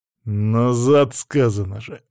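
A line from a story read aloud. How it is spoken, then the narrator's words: Growled. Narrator (Russian): рыкнул я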